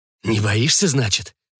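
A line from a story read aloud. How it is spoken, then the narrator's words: Offended ghoul's exclamation. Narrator (Russian): обиженно воскликнул упырь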